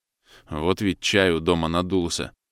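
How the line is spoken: Grumbling mutter. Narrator (Russian): пробурчал Савин

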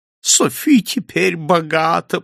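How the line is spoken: Moaned. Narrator (Russian): простонала она

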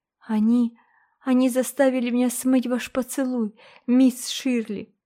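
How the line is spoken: Sobbing. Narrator (Russian): всхлипнула она

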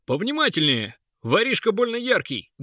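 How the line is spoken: Loud answer. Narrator (Russian): громко ответил страж Урил

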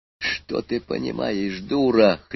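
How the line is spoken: Hoarse, sobered. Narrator (Russian): хрипел, совсем отрезвев аспирант

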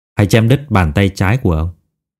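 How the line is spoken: Cold. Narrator (Vietnamese): lạnh lùng nói

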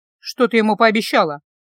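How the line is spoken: Gloomy question. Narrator (Russian): мрачно спросила я

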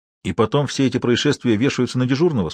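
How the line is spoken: Plain. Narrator (Russian): спросил Виктор

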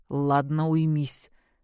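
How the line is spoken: Stern interruption. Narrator (Russian): строго оборвал ее Виктор

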